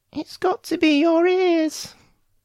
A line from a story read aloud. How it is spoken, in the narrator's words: Flustered and embarrassed, squeaked